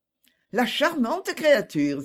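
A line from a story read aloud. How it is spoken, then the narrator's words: Exclaimed. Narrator (French): s'écria Lady Elizabeth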